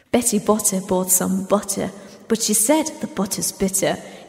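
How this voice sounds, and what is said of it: Put-on British accent. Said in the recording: “it sounds like you do it in a British accent”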